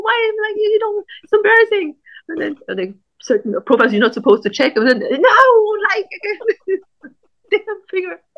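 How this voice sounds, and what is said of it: German accent. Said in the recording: “I guess I have a German accent”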